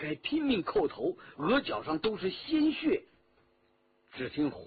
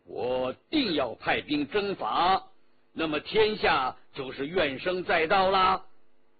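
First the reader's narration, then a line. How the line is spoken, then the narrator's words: Cold. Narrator (Chinese): 皇帝冷冷地说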